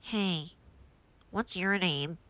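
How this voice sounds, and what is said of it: Weird voice imitating a kid. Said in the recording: “he had the weirdest voice ... I'm just doing that voice”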